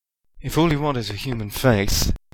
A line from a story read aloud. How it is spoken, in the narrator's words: he said tightly